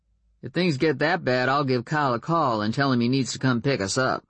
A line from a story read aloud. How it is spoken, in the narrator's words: Warren said dryly